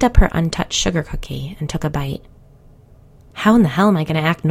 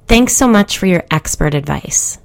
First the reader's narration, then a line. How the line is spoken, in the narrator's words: spat